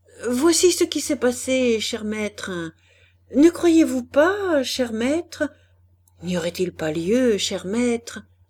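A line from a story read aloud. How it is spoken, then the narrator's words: Frantic, anguished questioning. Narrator (French): Andermatt, affolé d'angoisse par les gémissements de sa femme, harcelait de questions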